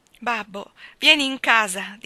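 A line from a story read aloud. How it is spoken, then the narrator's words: Pleading. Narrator (Italian): disse Maggie supplichevole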